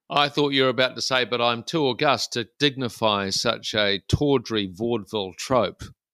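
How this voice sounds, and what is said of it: New Zealand accent. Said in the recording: “you've already outed yourself as a Kiwi ... Which Australian listeners will know immediately from your accent ... pronounce the words six and sex”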